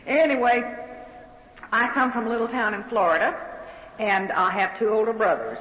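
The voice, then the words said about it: Southern American accent. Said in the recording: “As you can probably tell, I don't speak English. I speak Southern.”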